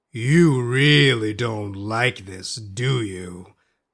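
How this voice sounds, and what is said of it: Booming character voice. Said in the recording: “in his booming voice.”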